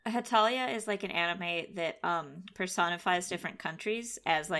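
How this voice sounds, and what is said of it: Usual voice. Nothing is said of it.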